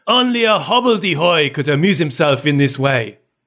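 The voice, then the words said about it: Put-on French accent. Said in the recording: “with a French accent, so I'll give that a go.”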